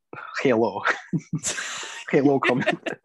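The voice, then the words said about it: Weak put-on Russian accent. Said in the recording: “can you do a good Russian accent? ... It's not the best.”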